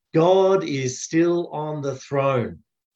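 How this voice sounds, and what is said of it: Big loud voice. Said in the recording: “say that with me in a big loud voice”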